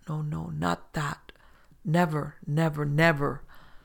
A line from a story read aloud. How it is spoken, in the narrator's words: words that he did not intend came sobbing and crying to his lips, muttering